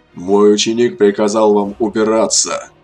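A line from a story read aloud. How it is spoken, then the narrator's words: Growled. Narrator (Russian): рыкнул Медив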